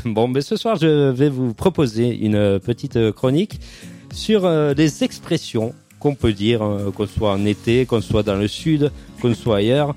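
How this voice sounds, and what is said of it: Regional French accent. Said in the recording (French): “Pourquoi tu prends un accent, là?... c'est mon accent”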